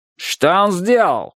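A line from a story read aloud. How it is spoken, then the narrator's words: Guard's shouted question. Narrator (Russian): спросил страж и закричал на парня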